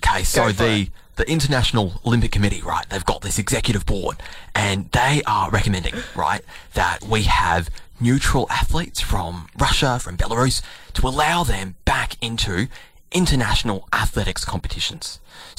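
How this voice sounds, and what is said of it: Sports journalist reporting voice. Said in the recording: “I've got to do my sports journal voice as well. ... I've got to stop doing that voice”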